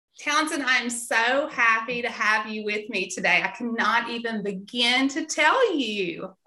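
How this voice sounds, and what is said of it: Southern American accent with twang. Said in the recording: “I love your Southern accent... nice to have another Southern twang... we definitely both have the Southern twang”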